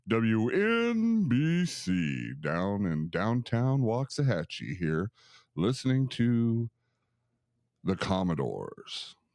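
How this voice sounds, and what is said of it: Mock radio announcer voice. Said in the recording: “I want to practice my radio voice”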